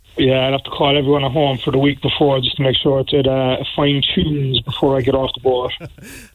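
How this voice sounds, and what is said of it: Strong Cork Irish accent. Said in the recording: “Great to hear that Cork accent again, boy. ... It's still there. ... Still there strong.”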